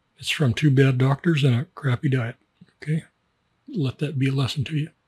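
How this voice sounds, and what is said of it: Weak voice, under the weather. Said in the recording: “I'm still a little bit under the weather. My voice is not strong. Nothing is strong.”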